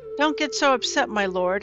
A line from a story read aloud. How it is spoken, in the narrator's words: Aaron replied